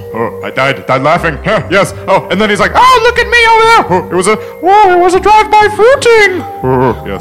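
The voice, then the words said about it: Robin Williams impression. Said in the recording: “Are you a Robin Williams impersonator”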